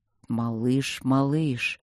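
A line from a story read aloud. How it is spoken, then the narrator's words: Anxious drawl. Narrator (Russian): тревожно протянул он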